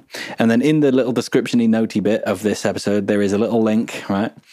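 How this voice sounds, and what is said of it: Northern English accent. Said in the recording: “That sounded so northern.”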